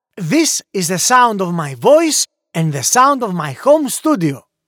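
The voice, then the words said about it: Greek accent. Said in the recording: “voiceover artist with a Greek accent ... I am a native Greek voiceover artist”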